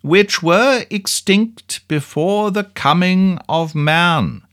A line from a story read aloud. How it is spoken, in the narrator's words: raising his voice, repeated slowly